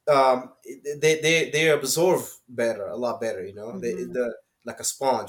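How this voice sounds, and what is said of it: Non-native English accent. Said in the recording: “Her English is better than mine. You know? So her accent is way better than mine.”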